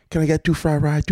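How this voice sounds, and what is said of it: Mock Chinese accent. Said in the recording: “I'm like speaking in the accent ... I just mocked their accent ... it wasn't even a Chinese person who answered the phone”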